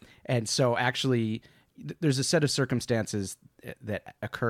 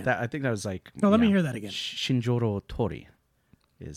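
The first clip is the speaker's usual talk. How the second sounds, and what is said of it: Japanese accent on a name. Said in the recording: “Is that your Japanese accent? ... That's pretty good.”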